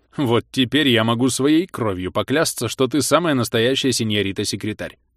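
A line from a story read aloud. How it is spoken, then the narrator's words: Displeased snort. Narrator (Russian): недовольно хмыкнул он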